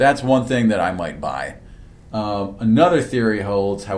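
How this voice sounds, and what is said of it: Usual voice. Nothing is said of it.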